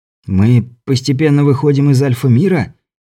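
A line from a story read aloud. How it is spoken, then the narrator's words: Frightened whisper. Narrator (Russian): испуганно шепнул Беляев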